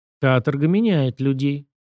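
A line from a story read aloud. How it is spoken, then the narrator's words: Gloomy woman. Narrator (Russian): мрачно напомнила женщина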